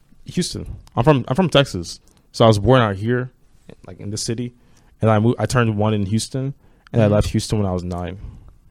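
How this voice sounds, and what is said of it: American accent. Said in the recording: “That's why I have an American accent. Because I lived in the U.S. as a kid.”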